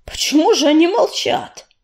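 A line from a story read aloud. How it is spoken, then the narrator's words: Sudden angry forced words. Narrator (Russian): с неожиданной злобой выдавил из себя Огнезвезд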